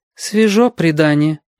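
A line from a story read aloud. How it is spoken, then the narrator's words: Sigh. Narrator (Russian): вздохнула мама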